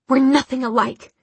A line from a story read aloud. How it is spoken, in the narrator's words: she spat